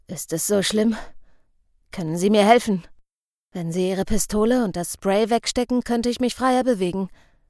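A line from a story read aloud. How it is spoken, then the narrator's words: Groaning question. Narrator (German): Stöhnend fragte er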